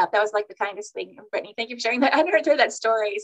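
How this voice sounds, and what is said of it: Emotional, teary voice. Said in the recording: “I just welled up ... now I'm all emotional”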